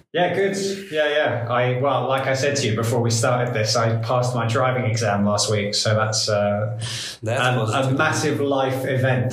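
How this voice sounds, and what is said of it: British accent. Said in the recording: “From the accent, you would already figure out that he's from the UK”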